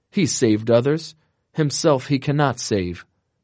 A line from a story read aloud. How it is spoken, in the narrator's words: priests and rulers, in satanic exultation, they exclaimed